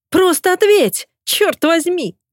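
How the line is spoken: Shrieking. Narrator (Russian): взвизгивает Ди

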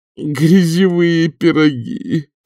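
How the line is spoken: Maitre d' moaning. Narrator (Russian): простонал мэтр д'отель

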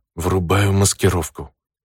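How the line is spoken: Self-soothing whisper. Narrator (Russian): прошептал больше для собственного самоуспокоения

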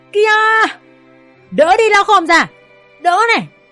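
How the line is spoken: Loud shout. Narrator (Vietnamese): Toàn hét lớn

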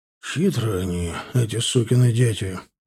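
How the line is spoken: Sigh. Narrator (Russian): вздохнул Таран

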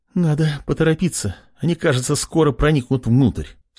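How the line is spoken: Anxious voice. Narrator (Russian): с тревожным голосом сообщила Лена

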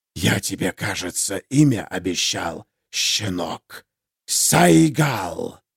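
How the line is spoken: Familiar hiss in the mind. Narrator (Russian): прозвучало в голове Ярослава знакомое шипение

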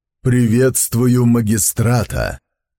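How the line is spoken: Deep resonant voice. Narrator (Russian): глубоким звучным голосом произнес

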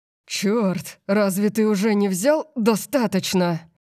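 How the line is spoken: Growling. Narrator (Russian): Макс зарычал

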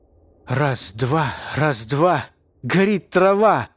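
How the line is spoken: Muttered through hysterical laughter. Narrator (Russian): пробормотал я сквозь истерический смех

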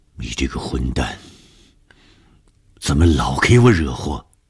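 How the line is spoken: Low growl. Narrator (Chinese): 红鱼低声的吼

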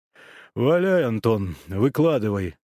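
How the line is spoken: Informal command. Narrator (Russian): переходя на неофициальный тон, скомандовал Ковальчук

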